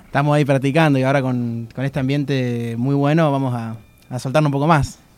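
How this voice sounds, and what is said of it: Radio announcer voice. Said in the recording (Spanish): “Este chico tiene voz de locutor ... ¡Es de radio!”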